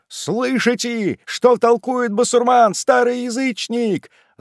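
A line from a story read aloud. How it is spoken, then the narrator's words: Many shrill voices shouting together. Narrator (Russian): закричало разом 20 пронзительных, нестройных голосов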